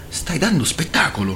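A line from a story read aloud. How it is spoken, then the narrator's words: Embarrassed girl murmuring. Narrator (Italian): mormorò la ragazza imbarazzata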